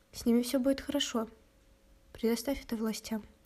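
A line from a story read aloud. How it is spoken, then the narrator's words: Calm. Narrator (Russian): спокойно произнес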